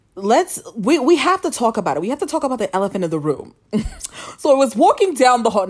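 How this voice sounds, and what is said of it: Imitates another person's voice. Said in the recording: “my Wendy Williams impression.”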